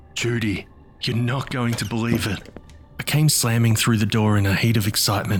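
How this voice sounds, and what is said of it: Usual voice. Nothing is said of it.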